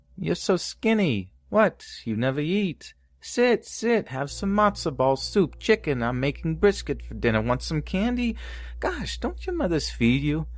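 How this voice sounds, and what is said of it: Stereotypical Yiddish grandma voice. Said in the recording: “stereotypical Yiddish grandma voice”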